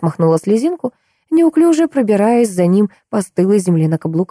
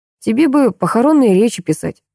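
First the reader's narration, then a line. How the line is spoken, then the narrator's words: Snorting. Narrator (Russian): хмыкнул Микаэль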